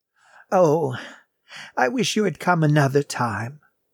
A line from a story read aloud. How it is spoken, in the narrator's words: sighed the old woman